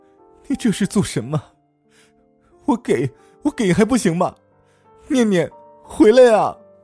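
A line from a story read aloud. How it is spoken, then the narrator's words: Hoarse, desperate crying. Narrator (Chinese): 母亲叫着老张的乳名，声嘶力竭的哭泣道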